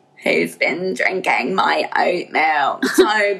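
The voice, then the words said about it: Imitates another person's voice, too slow. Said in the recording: “my Chloe impression ... Okay, no, you go too slow.”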